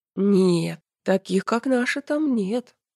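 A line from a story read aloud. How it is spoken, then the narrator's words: Self-important drawl. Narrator (Russian): важно протянул защитник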